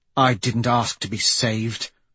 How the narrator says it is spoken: she says bitterly

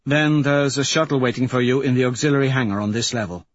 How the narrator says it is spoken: Mustang says evenly

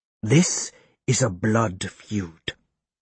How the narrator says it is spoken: hisses in high lingo

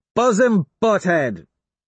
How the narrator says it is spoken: I shout up

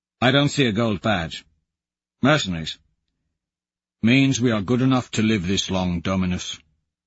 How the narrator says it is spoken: Valentin says flatly

